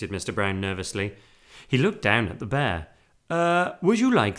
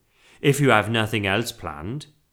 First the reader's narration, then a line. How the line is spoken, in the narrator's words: he asked hastily